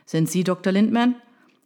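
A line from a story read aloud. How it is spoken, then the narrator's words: Shouting over loud noise. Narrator (German): rief er ihrem tosenden Regen entgegen, um das Rufgewitter der Reporter zu übertönen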